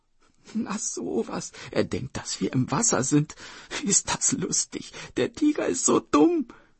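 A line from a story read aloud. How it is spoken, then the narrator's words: Sister giggling. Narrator (German): kicherte die Schwester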